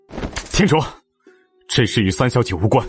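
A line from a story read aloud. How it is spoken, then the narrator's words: Stern rebuke. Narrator (Chinese): 厉声呵斥道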